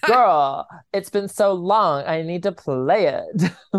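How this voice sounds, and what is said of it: Imitates another person's voice. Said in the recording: “That's a good impression of Kimmy, too.”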